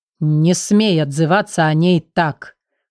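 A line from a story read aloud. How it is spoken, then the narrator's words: Hissed through clenched teeth. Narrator (Russian): Буквально процедил он сквозь зубы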